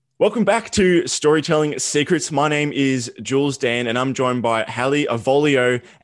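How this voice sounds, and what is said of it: Australian accent. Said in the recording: “I am very much enjoying listening to your accent ... Aussie podcasters”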